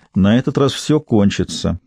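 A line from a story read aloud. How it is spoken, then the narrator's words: Even voice. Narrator (Russian): ровным голосом произнесла Кэти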